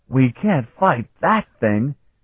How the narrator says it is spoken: Carlton cried

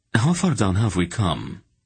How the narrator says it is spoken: Silk asked, looking around nervously

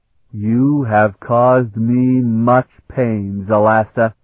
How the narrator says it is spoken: he said in a dreadful voice, speaking in Styrek

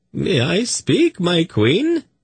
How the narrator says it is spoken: the eunuch asked in a quavering voice

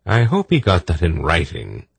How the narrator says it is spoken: Belgarath said dryly

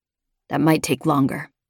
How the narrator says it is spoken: he said softly

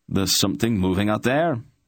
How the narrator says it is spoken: a Tolnedran barked

